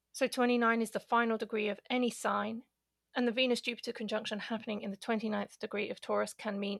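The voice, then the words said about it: Speaker's own non-native accent. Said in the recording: “I spell it out because of my accent.”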